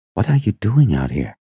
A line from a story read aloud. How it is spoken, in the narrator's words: he whispered